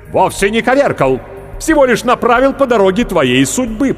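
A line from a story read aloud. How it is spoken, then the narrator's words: Grumble. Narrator (Russian): проворчал Свордиус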